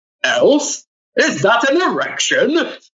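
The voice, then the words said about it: Imitates another person's voice. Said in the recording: “I do my best impression of him”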